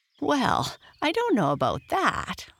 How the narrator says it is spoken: laughed Patrick

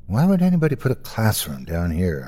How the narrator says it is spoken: mumbled to myself

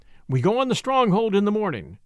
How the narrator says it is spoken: says Casey

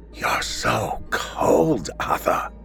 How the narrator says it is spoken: she rasped in a ghoulish hiss

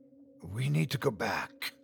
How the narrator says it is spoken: I said in a harsh whisper

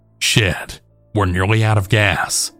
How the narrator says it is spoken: said angrily in Spanish

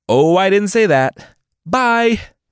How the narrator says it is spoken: the mystical old man shouted

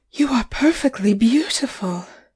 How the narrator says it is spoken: gasped

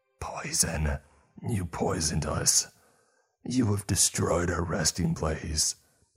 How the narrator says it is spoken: One that still had stuff on its face and a tongue in its mouth whispered

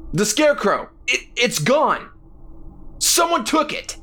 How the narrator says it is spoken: Jack shouted

